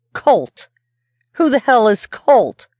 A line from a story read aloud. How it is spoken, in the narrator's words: raised my voice